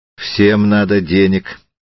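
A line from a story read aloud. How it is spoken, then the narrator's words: Cold reply. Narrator (Russian): холодно ответил Триродов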